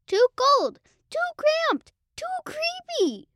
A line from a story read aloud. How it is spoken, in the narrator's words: squeaked Mortimer